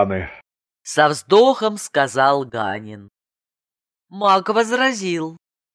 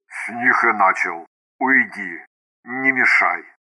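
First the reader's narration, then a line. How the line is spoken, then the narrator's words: Creaky mage's voice. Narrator (Russian): маг проскрипел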